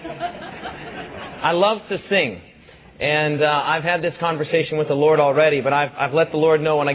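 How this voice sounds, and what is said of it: Voice lower-pitched than usual. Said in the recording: “My voice is lower. Do you notice that? ... pray that my voice won't go out”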